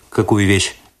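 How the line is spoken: Stern interrupting question. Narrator (Russian): Перебив ее, строго спросил лейтенант у Лосара

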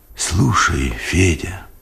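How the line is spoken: Whispered. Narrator (Russian): шепотом сказал он

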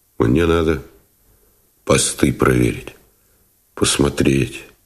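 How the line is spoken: Quiet, unfamiliar voice. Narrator (Russian): тихо, незнакомым голосом сказал он

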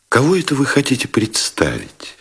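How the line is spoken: Quiet question. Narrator (Russian): тихо спросила Елизавета Ивановна

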